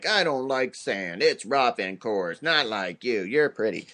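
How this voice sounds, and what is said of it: Imitates a movie character's voice. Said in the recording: “that impression”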